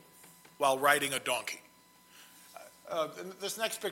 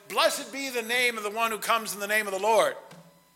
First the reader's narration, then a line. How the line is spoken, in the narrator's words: shouted